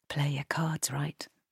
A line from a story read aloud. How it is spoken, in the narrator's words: murmured Cleo